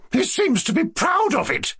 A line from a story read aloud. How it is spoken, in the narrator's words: cried, nearly jumping up from her chair